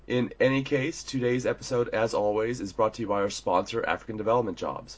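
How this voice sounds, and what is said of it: Slightly deeper, husky cold-affected voice. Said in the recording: “I have a little bit of a cold, so if I sound a little deeper or perhaps have a more, I don't know, sultry voice, that is why.”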